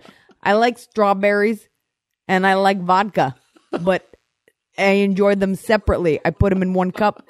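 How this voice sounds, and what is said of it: Imitates another person's voice, slight lisp. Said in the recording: “I still have a little bit of a lisp. And you used to put that into your impression of me. You'd add a little bit of it in there.”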